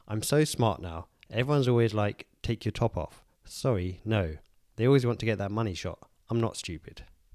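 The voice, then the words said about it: Deadpan, slightly congested voice. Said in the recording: “in my normal voice, although a bit fluey ... I'm doing it deadpan”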